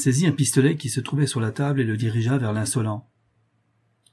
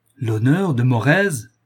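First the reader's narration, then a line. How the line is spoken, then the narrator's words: Thundering shout. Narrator (French): cria le marquis d'une voix tonnante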